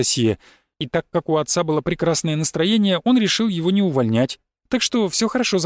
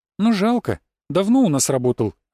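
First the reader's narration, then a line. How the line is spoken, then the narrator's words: Sighing young woman. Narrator (Russian): вздохнула девушка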